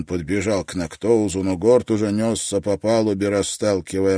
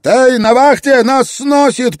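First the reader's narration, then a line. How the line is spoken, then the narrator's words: Panicked shout. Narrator (Russian): прокричал он, запаниковав от неожиданности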